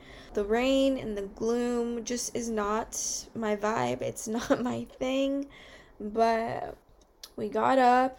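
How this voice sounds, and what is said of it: Sleepy, low-energy voice. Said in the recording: “As you can tell by my voice, I'm just a little sleepy. I'm a little sleepy.”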